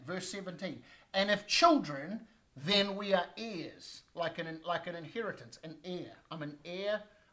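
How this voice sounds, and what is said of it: Speaks with a noticeable accent. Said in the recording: “I know my accent can sometimes throw that off”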